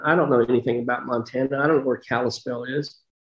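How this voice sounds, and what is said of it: Strong Texas accent. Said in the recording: “I had this terrible Texas accent.”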